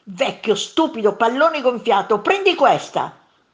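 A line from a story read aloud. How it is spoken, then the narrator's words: Monster shouting. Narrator (Italian): gridò il primo mostro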